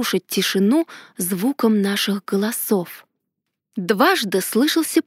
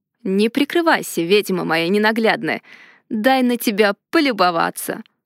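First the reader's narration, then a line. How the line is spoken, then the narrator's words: Sudden request. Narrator (Russian): вдруг попросил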